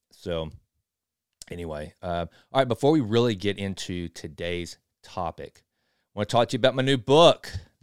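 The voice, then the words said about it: East Texas accent. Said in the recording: “my hick East Texas accent”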